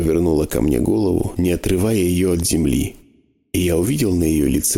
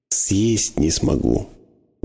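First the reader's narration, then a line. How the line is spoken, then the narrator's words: Trembling whisper. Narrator (Russian): дрожащими губами прошептала она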